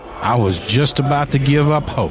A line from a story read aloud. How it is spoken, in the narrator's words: he added with a roar of laughter